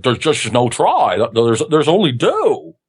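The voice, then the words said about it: Imitates Yoda's character voice. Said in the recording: “my Yoda impersonation ... Here's my Yoda”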